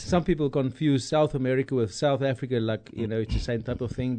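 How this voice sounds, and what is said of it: South African accent with slight twang. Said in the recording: “We're both from South Africa ... you will hear a very, very ... distinct, ... Accent. ... our accents would be a Germanic accent, a little bit of a twang”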